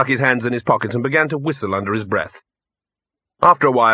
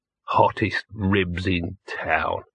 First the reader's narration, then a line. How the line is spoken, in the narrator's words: he muttered